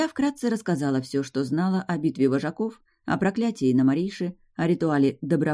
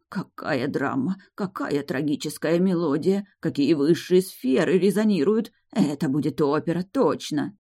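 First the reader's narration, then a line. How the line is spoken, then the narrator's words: Excited gasping mutter. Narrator (Russian): Далик ахал и охал, бормоча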